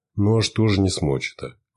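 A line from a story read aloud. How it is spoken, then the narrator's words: Father's sigh. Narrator (Russian): вздохнул отец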